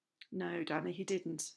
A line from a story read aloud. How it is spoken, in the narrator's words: he answered softly